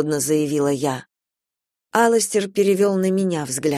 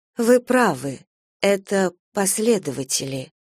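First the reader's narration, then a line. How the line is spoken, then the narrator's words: Slow exhale. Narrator (Russian): я медленно выдохнула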